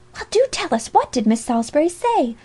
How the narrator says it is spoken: demanded another girl impatiently

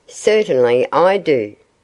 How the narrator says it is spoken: the owl replied sharply

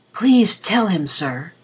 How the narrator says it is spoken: he whispered

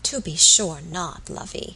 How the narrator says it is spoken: answered the old woman, soothingly

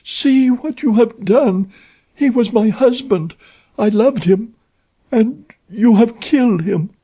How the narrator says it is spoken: she cried

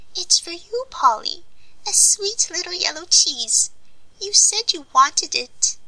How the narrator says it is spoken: piped out

